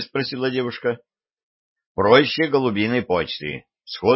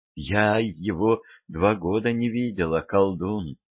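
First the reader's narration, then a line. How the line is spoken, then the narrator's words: Subdued whisper. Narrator (Russian): заметно притихнув, прошептала Любава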